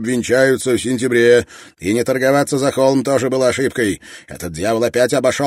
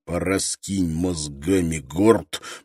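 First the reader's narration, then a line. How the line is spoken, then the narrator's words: Hissed. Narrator (Russian): прошипел Брок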